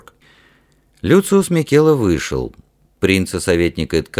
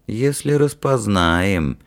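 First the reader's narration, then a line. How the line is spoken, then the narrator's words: Thoughtful drawl. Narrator (Russian): задумчиво протянул Эткаль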